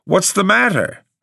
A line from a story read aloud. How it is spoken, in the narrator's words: I cried irritably